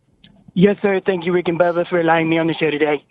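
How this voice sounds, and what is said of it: Poor imitation of another person's voice. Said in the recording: “I don't think it was good enough. ... we need to lower that voice a little. ... We've had some really good Trump impersonators. I'm sorry, that was not one of them. ... That sounded like somebody from India.”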